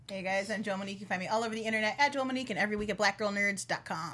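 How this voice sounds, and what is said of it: Polished radio announcer voice. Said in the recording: “That's the radio voice. See, that there's no sexy in there.”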